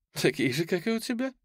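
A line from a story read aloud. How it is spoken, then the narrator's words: Laughing. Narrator (Russian): засмеялась Карина 2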